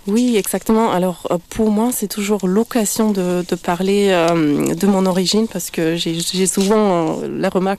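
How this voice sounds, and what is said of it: Slight accent in French. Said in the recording (French): “vous avez un petit accent”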